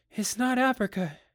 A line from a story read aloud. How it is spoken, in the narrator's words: said breathlessly